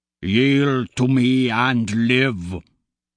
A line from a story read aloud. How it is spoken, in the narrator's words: Ragnar rumbles